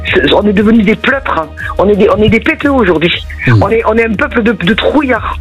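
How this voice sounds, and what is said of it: Sing-song regional French accent. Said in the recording (French): “votre accent chantant”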